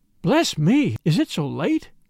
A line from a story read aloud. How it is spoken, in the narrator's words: cried